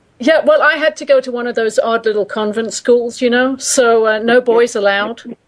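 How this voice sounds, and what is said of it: Brooklyn accent. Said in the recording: “and I come from Brooklyn, and because we got the same accent, you can tell that straight away.”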